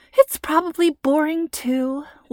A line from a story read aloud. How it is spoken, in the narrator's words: Lacey sighed